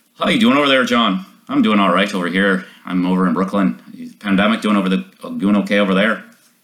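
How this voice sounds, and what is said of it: Put-on Irish accent. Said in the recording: “he said I did the best Irish accent of anyone in the play. I am convinced that I can do a great Irish accent.”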